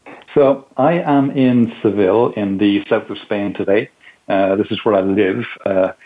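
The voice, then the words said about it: Irish accent. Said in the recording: “My accent is not a Spanish accent, obviously. I'm originally from Ireland”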